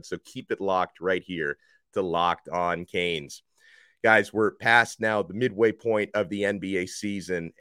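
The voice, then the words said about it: Voice slightly off from cold. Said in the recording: “I've got a cold now, so I'm you know my voice is a little bit off, and I'm trying not to lose my voice”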